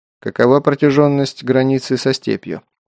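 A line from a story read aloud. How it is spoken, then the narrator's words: Plain. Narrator (Russian): спросил Герман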